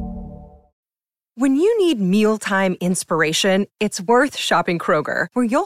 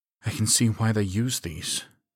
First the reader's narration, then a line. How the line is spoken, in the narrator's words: she muttered